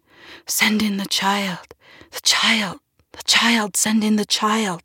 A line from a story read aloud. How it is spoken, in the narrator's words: the relatives stood in an anxious little huddle, and they whispered